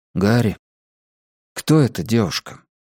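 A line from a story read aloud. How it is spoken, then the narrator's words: Quiet question. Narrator (Russian): тихо спросил я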